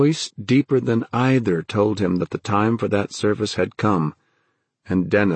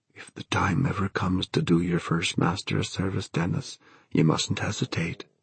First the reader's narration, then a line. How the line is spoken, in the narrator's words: the voice of his Da, his own dear dead Da, whispering